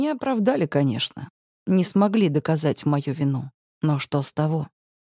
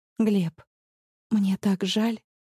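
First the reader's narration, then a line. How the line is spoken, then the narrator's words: Quiet. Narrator (Russian): говорю я тихо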